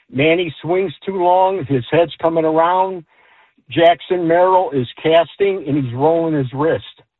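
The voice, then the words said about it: Chicago accent. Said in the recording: “I can totally tell he's from Chicago. That nice little accent going right there.”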